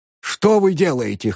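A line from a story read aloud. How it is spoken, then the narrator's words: Hoarse. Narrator (Russian): хрипел он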